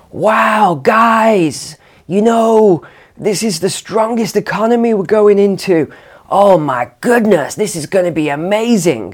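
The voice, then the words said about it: Badly done American accent. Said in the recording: “Sorry for the butchered American accent there.”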